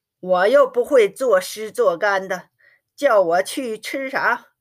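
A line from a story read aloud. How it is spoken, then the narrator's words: Laughing. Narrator (Chinese): 不由笑了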